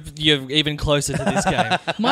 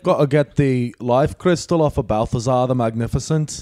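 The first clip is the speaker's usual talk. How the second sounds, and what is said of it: Deliberately bad put-on accent. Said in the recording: “that's quite a bad accent that I'm doing there.”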